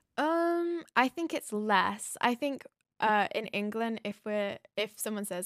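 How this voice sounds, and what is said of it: British accent with American influence. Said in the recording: “my accent's a bit Americanized, but to an American person, it's still British”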